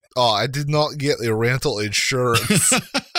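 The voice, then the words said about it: Weird put-on Scandinavian accent. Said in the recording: “That was a weird accent. That was more like the Swedish chef or something. ... I tried to do Icelandic, kind of. ... Scandinavian.”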